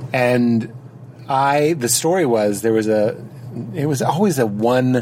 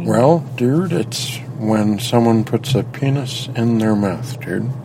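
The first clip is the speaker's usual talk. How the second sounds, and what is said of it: Impression of the speaker's brother. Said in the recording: “I do a great impression of my brother.”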